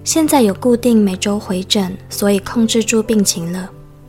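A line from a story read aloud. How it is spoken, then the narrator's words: Flat, indifferent. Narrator (Chinese): 淡淡地说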